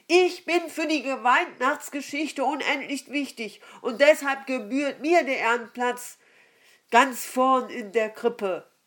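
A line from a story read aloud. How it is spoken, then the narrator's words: Donkey calling out. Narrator (German): rief ein Esel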